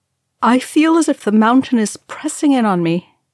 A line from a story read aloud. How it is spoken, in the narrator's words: Legolas said, his face wooden and his voice halting